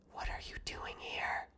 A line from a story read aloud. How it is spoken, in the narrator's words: cold breath on my ear and a voice that whispered